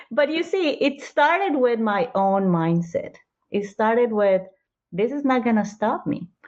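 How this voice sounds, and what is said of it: Colombian accent. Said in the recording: “I'm Colombian, American, Australian ... because of my accent ... I spoke differently ... I think it's a cute accent.”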